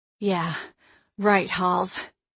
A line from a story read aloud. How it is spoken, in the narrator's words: I panted to myself